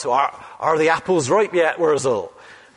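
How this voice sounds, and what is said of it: Put-on Somerset English accent. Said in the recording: “drag out the Somerset accent.”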